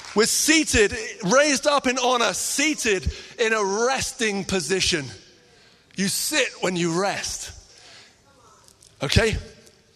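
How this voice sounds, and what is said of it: Shouting, excited preaching voice. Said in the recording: “I'm sorry if I'm shouting and getting excited”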